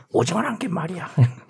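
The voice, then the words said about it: Imitates another person's voice. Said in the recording (Korean): “변희봉 성대모사”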